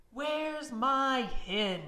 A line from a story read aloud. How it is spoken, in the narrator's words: He shouted